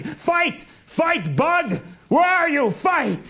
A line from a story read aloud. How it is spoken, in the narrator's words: He kept yelling